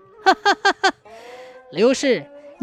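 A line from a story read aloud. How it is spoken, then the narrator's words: Calm, laughing. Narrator (Chinese): 他镇静自若的哈哈一笑，说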